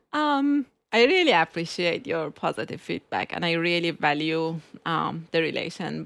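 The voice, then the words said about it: Speaks with an accent. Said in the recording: “my accent”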